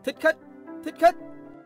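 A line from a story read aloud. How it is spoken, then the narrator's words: Guards crying out together. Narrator (Vietnamese): Bọn thị vệ đồng loạt kêu lên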